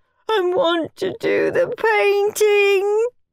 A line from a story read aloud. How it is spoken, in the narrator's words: wailed William